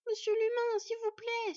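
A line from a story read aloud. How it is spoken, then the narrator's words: Pleading. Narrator (French): supplia Sylveig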